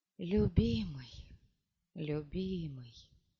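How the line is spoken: Whisper. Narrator (Russian): прошептав

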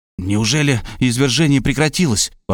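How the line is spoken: Exclamation. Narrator (Russian): воскликнул я

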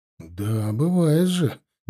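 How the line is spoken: Vague drawl. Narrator (Russian): неопределенно протянул я

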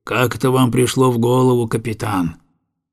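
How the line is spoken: Gloomy question. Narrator (Russian): он мрачно спросил

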